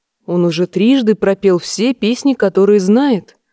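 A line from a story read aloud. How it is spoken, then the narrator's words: Soft. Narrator (Russian): мягко сказал дочери лорд Эдард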